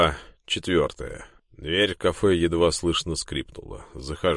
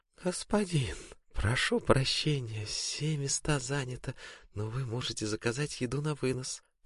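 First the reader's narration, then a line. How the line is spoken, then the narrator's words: Melodic sing-song, slight burr. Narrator (Russian): пропевает она мелодичным голосом, немного картавя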